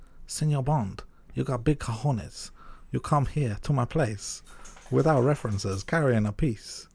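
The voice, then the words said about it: Exaggerated Latino accent impression. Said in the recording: “it's not even his accent. He's not even that Latino. ... It's like Manuel from Fawlty Towers or something.”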